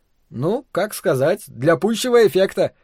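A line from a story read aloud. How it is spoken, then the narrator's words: Laughing. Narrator (Russian): засмеялся Максимилиан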